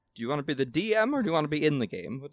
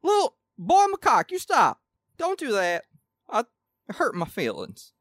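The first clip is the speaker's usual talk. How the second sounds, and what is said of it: Put-on Southern American accent. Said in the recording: “His accent is generally southern.”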